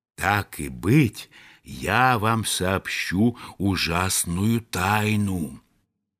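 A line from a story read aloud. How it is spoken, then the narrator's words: Secretive whisper. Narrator (Russian): шепнул ему по секрету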